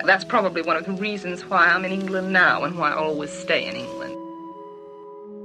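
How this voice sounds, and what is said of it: American accent. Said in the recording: “I'm an American. My accent's American. My way of talk is an American way of talk.”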